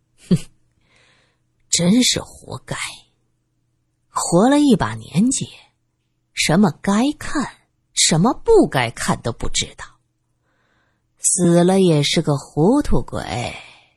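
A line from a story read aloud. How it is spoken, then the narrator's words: Soft sigh. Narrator (Chinese): 马万年……微微叹息了一声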